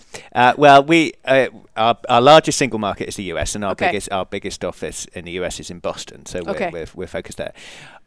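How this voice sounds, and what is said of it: English accent. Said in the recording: “You may have picked up from the accent that I'm English.”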